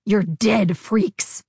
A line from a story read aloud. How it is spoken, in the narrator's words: Ari snarled, his eyes streaming with tears